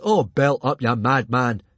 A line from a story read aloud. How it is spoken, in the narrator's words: snapped Fishlegs